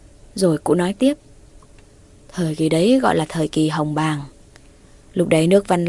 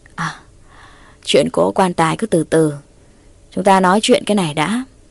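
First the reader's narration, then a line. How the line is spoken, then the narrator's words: Knowing hearty laugh. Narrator (Vietnamese): cụ Tà Ao hiểu ý cười lớn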